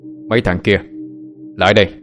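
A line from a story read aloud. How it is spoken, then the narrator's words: Angry yell. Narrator (Vietnamese): Phúc quát lên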